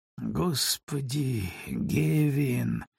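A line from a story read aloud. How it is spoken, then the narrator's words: Muttered. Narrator (Russian): пробормотал он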